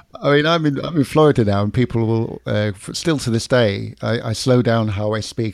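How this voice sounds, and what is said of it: London English accent, slowed speech. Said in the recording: “I've still got the London accent, but I try and slow down this, and they still think we're Australian.”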